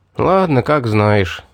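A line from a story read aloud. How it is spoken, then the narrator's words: Sighing. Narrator (Russian): вздохнул я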